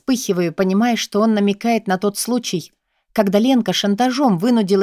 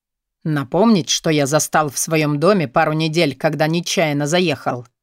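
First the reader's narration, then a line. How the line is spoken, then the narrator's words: Cold inquiry. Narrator (Russian): Холодно осведомляется Борис Александрович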